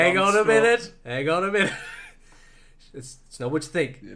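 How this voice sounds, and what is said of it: Usual voice. Nothing is said of it.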